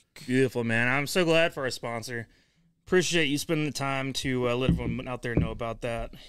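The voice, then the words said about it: Out of breath, panting speech. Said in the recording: “I'm out of breath.”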